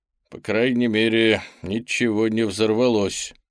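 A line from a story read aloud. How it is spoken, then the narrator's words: Satisfied muttering. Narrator (Russian): с удовлетворением пробурчал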